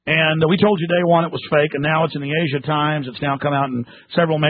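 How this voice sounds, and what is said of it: Usual voice. Nothing is said of it.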